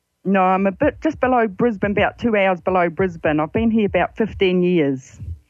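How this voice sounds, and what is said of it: Strong New Zealand accent. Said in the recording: “It's a lovely Kiwi accent you've got. ... Very Kiwi still. ... you've still got that beautiful accent”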